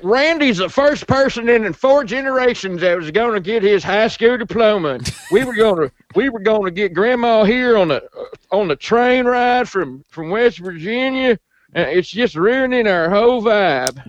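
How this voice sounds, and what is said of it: Put-on Southern accent. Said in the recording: “you used a Southern accent for that”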